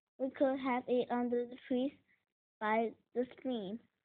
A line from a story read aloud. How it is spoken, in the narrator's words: said Gus